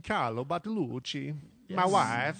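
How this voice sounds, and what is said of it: Mario-style Italian accent. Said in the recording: “Nice accent. ... Like there. ... In Mario.”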